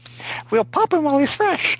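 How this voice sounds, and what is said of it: Squeaky character voice. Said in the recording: “how long can you keep up that squeaky voice?”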